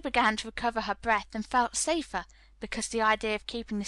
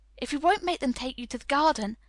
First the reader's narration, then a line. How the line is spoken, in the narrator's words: pleaded Mary